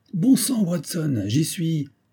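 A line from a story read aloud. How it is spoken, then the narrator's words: Exclaimed. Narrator (French): s'écria-t-il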